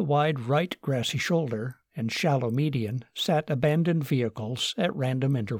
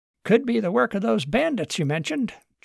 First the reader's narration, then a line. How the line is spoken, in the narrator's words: Charles called out of the rear window